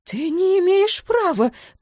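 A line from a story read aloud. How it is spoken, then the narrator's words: Near shriek. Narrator (Russian): почти взвизгнул Вилмот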